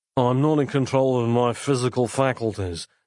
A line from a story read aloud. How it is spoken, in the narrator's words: said Nick, slurring